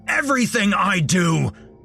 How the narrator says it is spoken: he screamed

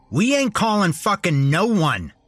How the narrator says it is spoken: Larry shouted

